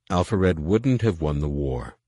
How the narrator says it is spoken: Luke said calmly

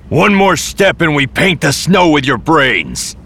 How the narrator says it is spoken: a voice shouted out

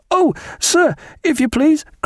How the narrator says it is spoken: cried a tall, pale, frightened midshipman

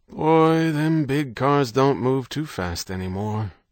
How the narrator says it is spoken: The dealer sighing

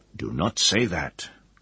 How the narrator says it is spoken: the mage said sharply

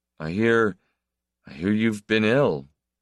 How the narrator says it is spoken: he said, stammering

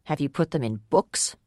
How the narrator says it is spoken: Ador spat out the words read and books as if they were turds in his mouth

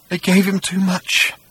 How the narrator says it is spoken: he said in a tiny whimper

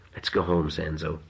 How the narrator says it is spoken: whispered

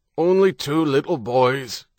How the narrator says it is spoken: Gannon said, his voice muffled against the ground

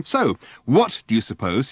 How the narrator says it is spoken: he asked fiercely

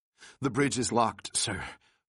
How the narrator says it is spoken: Floyd reported breathlessly

